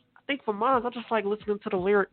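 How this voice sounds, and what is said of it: Imitates another person's voice. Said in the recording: “my Ailey Red impression ... I thought that sounded pretty good”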